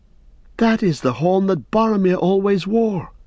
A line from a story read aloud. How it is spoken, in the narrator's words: cried Pippin